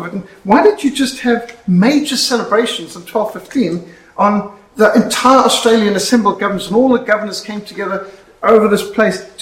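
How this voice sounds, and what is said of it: South African accent. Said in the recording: “you don't have an Australian accent. Where do you come from? I said, South Africa.”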